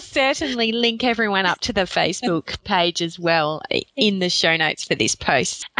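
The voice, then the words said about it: Speaks with a noticeable accent. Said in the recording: “it has been super fun to hear your accent for a whole 30 minutes”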